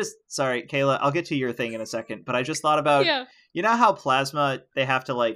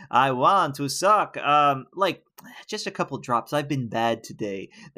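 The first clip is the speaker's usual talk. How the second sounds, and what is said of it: Put-on vampire accent, slipping. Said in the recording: “Vampires don't just go like ... That accent fell apart.”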